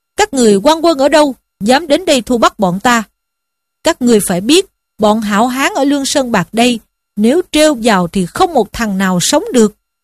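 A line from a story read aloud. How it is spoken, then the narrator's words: Shouted question. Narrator (Vietnamese): Lâm Xung quát lên hỏi rằng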